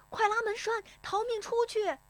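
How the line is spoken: Shouted. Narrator (Chinese): 有人喊

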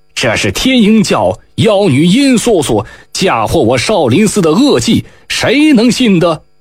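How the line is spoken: Monk crying out. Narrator (Chinese): 一名灰袍僧人叫了起来

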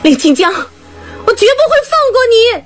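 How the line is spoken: Shouting skyward. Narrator (Chinese): 她冲着天空喊

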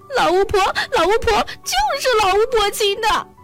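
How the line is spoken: Sobbing. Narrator (Chinese): 莎莎哭哭啼啼地说

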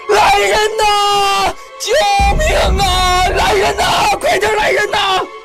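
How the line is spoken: Panicked loud shouting. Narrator (Chinese): 长发更加慌张，大声地喊了起来

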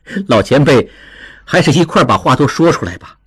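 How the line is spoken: Smiling. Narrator (Chinese): 应济笑着

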